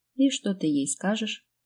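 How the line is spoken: Timid, trembling question. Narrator (Russian): Чуть робко поинтересовалась я, ощущая, как внутри все дрожит

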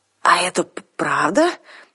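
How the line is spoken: Hoarse croak while coughing. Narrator (Russian): все еще покашливая прохрипела Арсана

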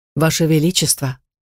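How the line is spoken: Calm correction, lizard. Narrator (Russian): спокойно поправил вредный ящер

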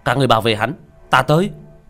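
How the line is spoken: Leader shouting. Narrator (Vietnamese): một người cầm đầu quát lên

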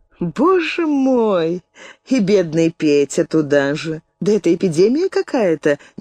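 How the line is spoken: Involuntary laughter. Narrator (Russian): невольно рассмеялась Верховская

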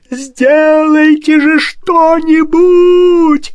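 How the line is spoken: Desperate yelling. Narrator (Russian): отчаянно завопил барон

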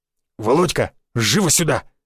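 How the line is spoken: Barking. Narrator (Russian): рявкнул в мою сторону Гвоздев

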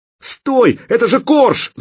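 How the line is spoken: Shout. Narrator (Russian): закричал Нешек

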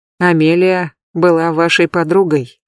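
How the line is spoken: Soft. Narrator (Russian): тихонько добавил Пит

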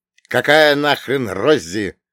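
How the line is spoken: Barked. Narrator (Russian): рявкнул я

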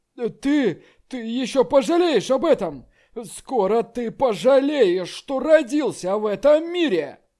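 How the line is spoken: Angry shout. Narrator (Russian): Мужун Е, крикнув злобно

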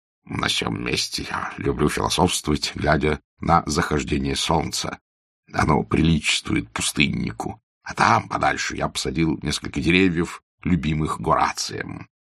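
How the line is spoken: Whisper. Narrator (Russian): он шепнул Аркадию

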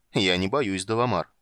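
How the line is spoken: Wry snort. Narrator (Russian): хмыкнул Юстариус

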